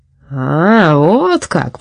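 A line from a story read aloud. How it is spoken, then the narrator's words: Said, then laughing. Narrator (Russian): произнес Петрозилиус Свакельман и засмеялся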